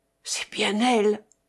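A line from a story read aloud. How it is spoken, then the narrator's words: Choked emotional murmur. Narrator (French): murmura Madame d'Estol, dont l'émotion étranglait la voix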